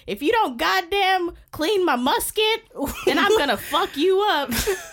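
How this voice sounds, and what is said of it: Bad Civil War-era character voice. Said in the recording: “my very bad Civil War impression”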